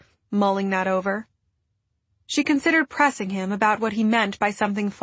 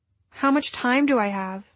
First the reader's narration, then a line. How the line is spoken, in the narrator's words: she asked